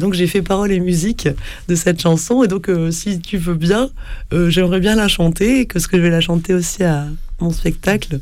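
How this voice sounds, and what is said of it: Slightly hoarse, cracked voice. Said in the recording (French): “comme vous entendez, j'ai un peu la voix cassée, parce que oui, je suis allergique au pollen”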